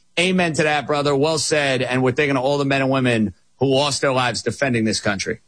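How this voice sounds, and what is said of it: Strong New York accent. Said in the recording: “your accent's still strong ... New York accent”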